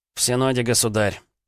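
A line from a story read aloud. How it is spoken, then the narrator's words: Sighing. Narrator (Russian): Митька вздохнул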